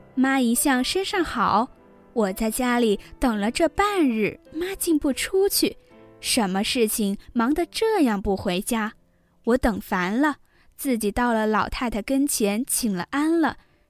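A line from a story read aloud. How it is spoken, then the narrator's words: Laughing daughter. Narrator (Chinese): 他女儿笑道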